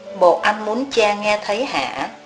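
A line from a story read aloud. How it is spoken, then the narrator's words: Soft, quiet. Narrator (Vietnamese): Một thầy khẽ nói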